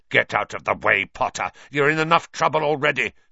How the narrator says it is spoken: snarled Snape

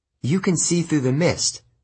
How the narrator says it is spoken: I said

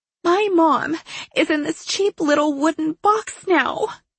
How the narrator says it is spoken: she whined

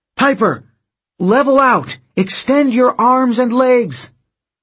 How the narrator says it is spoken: Somewhere above her, Jason yelled

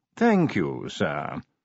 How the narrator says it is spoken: said Willikins smoothly

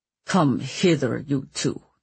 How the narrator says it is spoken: he grumbled

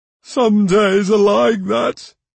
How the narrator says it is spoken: Quistel sighed

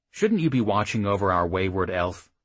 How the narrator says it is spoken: He asked sharply

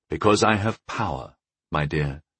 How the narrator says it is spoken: I said with a heavy sigh

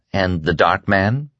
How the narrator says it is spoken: Fran asked quietly

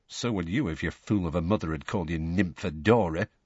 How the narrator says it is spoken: muttered Tonks

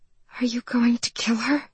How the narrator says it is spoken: she whispered

